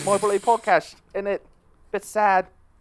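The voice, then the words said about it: Put-on British accent. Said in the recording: “It's going to be all in British accents, isn't it?”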